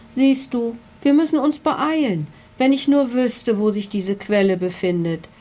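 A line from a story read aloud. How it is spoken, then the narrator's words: Sigh. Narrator (German): seufzte der Paradiesvogel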